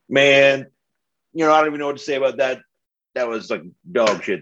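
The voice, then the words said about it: Imitates another person's voice. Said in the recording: “channel my inner Travis ... my impression of what Travis would be saying”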